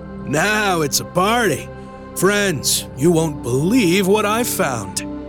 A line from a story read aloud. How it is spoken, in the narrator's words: with his usual gusto, loudly declaring